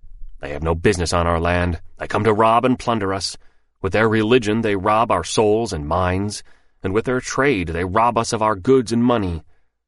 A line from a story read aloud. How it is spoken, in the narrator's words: he muttered full of hate